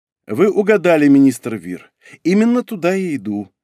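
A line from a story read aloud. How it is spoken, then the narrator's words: Calm reply. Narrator (Russian): ответил спокойно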